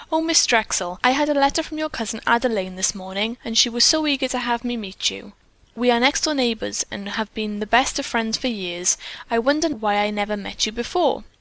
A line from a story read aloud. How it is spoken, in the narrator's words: she exclaimed